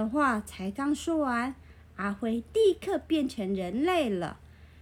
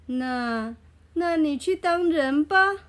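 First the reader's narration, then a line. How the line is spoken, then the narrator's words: Old woman laughing. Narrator (Chinese): 老婆婆笑着说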